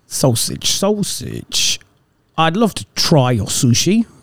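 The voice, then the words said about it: Put-on South London accent, too formal. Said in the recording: “accent. South London, man ... No, that went too formal. That was Queen's”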